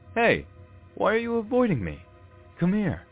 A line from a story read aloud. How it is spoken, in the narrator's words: I hear him shout